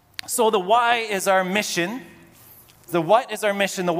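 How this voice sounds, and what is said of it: Usual voice. Nothing is said of it.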